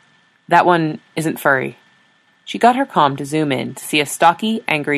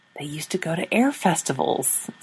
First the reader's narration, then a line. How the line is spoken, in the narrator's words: Sora mumbled